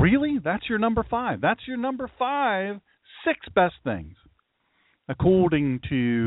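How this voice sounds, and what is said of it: Usual voice. Nothing is said of it.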